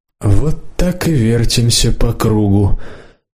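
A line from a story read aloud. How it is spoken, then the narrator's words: Muffled, dull voice. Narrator (Russian): глухо сказал депутат Зарудный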